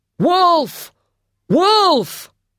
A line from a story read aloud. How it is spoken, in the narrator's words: shouted